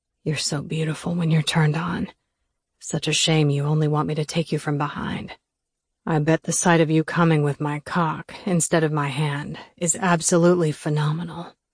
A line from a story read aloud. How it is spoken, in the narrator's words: Weston whispered in my ear